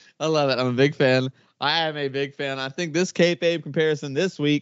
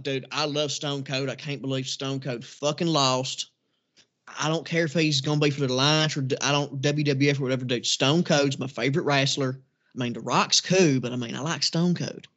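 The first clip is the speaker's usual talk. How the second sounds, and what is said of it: Redneck superfan character voice. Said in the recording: “What do you think the redneck superfan would have thought”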